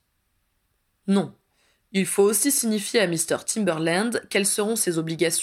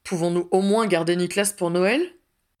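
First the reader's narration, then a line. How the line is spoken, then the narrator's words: Plain question. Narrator (French): demanda Ignatius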